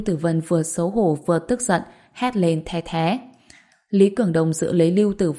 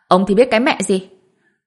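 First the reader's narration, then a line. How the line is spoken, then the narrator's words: Angry. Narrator (Vietnamese): Lưu Tử Vân tức giận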